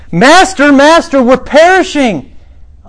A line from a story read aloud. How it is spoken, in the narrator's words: these guys screaming